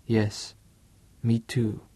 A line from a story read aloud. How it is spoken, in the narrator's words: whispered